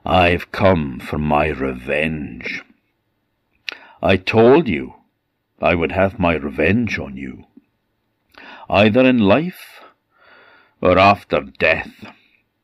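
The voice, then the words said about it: Sneering voice. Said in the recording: “in a sneering voice”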